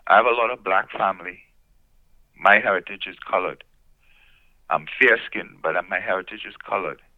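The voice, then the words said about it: Immigrant's foreign accent. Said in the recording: “you can hear from my voice, I'm an immigrant originally to the United States and Canada”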